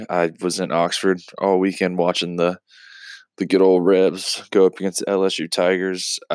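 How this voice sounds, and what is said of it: Slightly raspy voice. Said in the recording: “My voice sounds a little raspy.”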